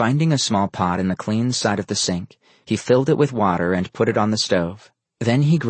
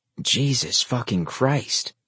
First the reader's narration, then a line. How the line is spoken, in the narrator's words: he mumbled to himself